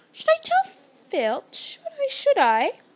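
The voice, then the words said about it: Sweet, innocent-sounding voice. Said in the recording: “in a saintly voice,”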